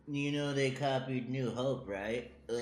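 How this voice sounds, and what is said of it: Impression of a co-host. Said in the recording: “He's doing his impression of me.”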